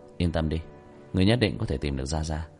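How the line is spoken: Sighing. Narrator (Vietnamese): Tiểu Thất thở dài

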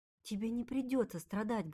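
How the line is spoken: Quiet. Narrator (Russian): говорит он тихо

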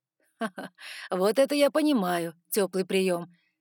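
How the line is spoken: Laughing. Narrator (Russian): рассмеялся он

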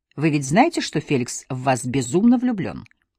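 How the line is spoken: Very calm. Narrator (Russian): сказала очень спокойно

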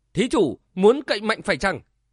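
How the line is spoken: Loud, alarmed question. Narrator (Vietnamese): Tiểu ni cô biến sắc, lớn tiếng hỏi

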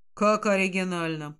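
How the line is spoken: Icy tone. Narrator (Russian): тем же ледяным тоном произносит Нейт

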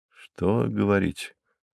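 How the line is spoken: Mumble. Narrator (Russian): пробормотал

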